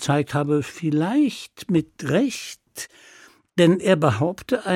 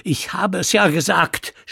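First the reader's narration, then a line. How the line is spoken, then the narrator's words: Scream. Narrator (German): schrie er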